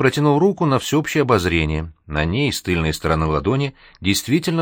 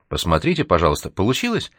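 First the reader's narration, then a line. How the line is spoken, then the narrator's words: Anxious request. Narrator (Russian): взволнованно попросила она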